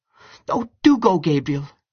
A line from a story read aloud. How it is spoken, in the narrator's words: she cried